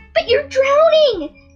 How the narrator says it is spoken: Dappletail shrieked

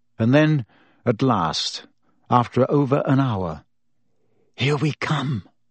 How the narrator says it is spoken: Hermione whispered

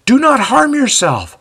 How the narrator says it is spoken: the voice from the darkness pleads again

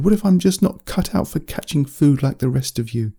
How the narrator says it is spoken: Dominic laughed, very strangely

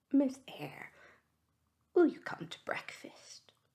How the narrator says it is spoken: Fairfax with a sad countenance saying, gravely

